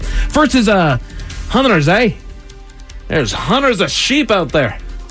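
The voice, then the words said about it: Put-on Scottish accent. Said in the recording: “I'm going to give you guys my best impression of it. I can do some Scottish”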